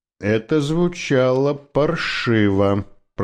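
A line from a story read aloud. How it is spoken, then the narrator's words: Grumbling. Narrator (Russian): проворчал Коуди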